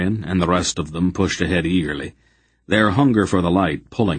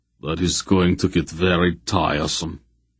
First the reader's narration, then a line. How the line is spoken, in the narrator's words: Barak growled